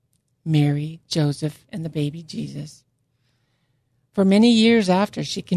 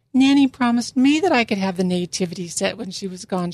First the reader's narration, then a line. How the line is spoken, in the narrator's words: cried